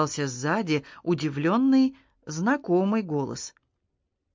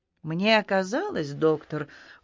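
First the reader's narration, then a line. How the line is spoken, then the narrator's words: Cold. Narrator (Russian): холодно обратился к пришедшему Куан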